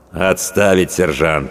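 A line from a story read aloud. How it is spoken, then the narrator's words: Cold. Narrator (Russian): холодно произнес ротный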